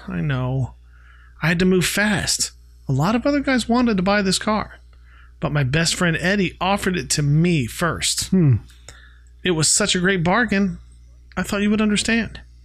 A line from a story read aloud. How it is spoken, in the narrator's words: Greg sighs and says